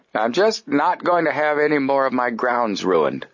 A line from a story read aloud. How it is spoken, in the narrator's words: he said gruffly